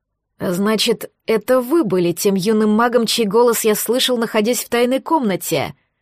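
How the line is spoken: Hateful, through gritted teeth. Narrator (Russian): Процедил с ненавистью в голосе Люциус

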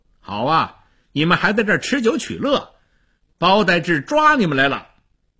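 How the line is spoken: Loud speech. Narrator (Chinese): 他大声地说

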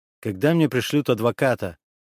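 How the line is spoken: Abrupt question. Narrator (Russian): резко меняя тему, спросил

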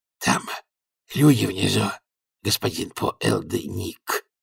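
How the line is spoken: Hoarse wheeze. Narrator (Russian): просипел

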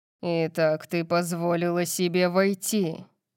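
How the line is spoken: Growled. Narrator (Russian): прорычал он

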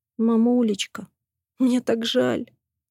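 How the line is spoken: Tearful sobbing. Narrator (Russian): всхлипывает она

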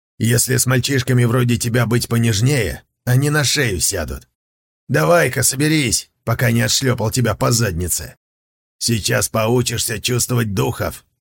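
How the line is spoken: Snort. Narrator (Russian): Сунзиюй хмыкнул

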